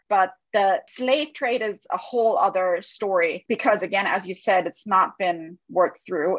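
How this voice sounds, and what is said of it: European accent. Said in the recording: “as you can hear. I have an accent. I come from Europe.”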